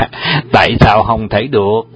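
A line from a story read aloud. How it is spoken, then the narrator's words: Laughing loudly, asking. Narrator (Vietnamese): Trùng Dương cười lớn và hỏi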